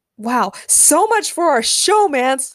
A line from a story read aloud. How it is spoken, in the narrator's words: Larissa screamed